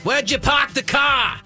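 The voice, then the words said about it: Put-on Boston accent. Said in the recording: “I love a Boston accent”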